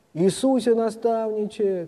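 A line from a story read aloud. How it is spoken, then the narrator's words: Crowd shouting. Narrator (Russian): кричали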